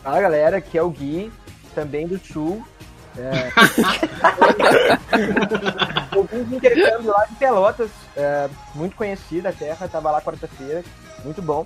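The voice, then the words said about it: Imitated regional accent. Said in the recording (Portuguese): “muito boa a imitação, cara. ... sotaque boa, perfeito. ... muito boa, meu. Achei que era o Lucas. ... não ficou muito bom.”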